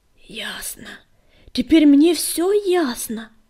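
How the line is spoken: Hoarse rasp. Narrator (Russian): прохрипела

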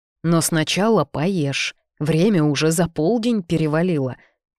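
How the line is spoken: Warm grumbling with smile. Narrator (Russian): проворчала Мирна, ласково мне улыбнувшись

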